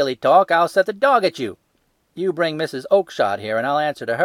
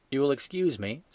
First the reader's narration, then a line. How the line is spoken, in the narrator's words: said Sherlock Holmes, blandly